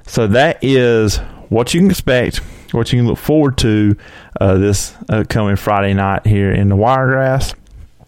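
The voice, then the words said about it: Strained, nearly lost voice. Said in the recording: “my voice is almost gone because I have been talking a good almost 30 minutes straight”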